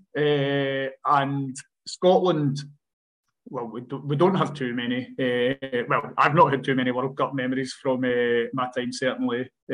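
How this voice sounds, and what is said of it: Scottish accent. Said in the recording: “you might be able to tell from my accent that I'm from Scotland”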